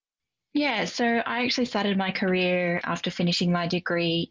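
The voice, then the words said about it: Australian accent. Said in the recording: “You've got a very Aussie accent”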